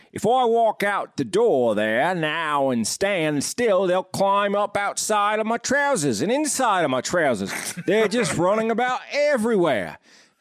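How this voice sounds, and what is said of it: Put-on accent reading a quote. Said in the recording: “pretty good accent”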